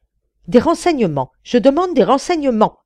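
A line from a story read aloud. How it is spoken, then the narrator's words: Impatient cry. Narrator (French): s'écria avec impatience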